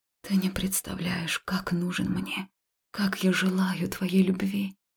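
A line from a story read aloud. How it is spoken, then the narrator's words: Quiet confession. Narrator (Russian): тихо призналась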